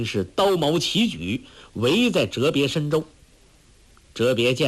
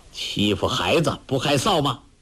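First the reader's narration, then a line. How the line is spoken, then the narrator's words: Sneering. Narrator (Chinese): 冷笑道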